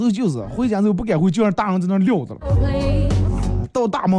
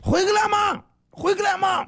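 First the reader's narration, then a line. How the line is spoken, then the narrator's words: Grandmother yelling. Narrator (Chinese): 我奶奶就站在门口吼的了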